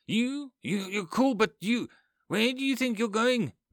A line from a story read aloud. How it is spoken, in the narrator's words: Becca yells